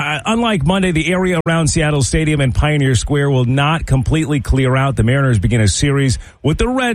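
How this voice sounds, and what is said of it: Usual voice. Nothing is said of it.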